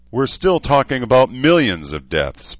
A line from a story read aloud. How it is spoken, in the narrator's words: Paul snapped